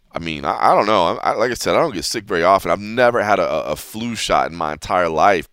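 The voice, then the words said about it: Sick, abnormal-sounding voice. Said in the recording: “I'm sure you can hear it in my voice now, whether you've ever heard me speak or not. You can tell it's not normal. Not to mention I'm trying to fight back the coughing.”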